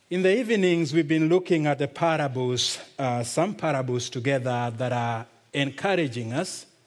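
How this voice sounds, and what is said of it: Kenyan accent. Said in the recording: “my strange Kenyan accent”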